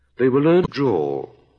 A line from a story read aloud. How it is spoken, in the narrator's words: the Dormouse went on, yawning, for it was getting very sleepy